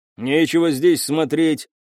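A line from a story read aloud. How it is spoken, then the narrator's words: Barking. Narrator (Russian): рявкнул один из черночешуйчатых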